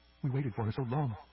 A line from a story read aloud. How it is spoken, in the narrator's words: said Maris softly